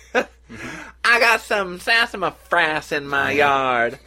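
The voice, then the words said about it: Attempted Oklahoma accent. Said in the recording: “that's a good start for the Oklahoma accent, but we're going to continue to work on it.”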